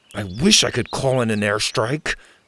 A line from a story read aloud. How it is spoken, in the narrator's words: mumbled